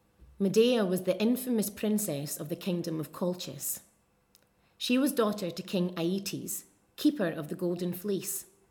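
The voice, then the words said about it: Soft rhotic Stirling Scottish accent. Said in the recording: “What you will hear with this accent is much less twang than you would hear in Glasgow... Stirling is a little bit softer... The accent is rhotic, the R is being pronounced in all positions, and you also get that short U vowel in a word like looked... A little bit more movement perhaps in the diphthongs as well”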